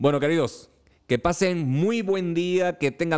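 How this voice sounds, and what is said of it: Usual voice. Nothing is said of it.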